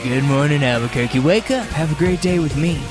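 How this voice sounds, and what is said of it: Exaggerated radio announcer voice. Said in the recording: “Radio Voice Day.”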